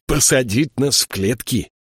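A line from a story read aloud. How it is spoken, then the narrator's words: Grumbling in pain. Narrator (Russian): проворчал Тайгер, потирая болевшие ноги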